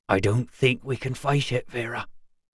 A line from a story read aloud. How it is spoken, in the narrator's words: he whispered, starting to shiver